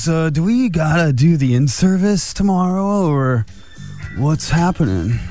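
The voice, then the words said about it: Young surfer dude voice. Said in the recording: “That was my young surfer teacher voice. ... It is a young surfer teacher.”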